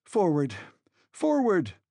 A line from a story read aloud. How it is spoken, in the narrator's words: I cried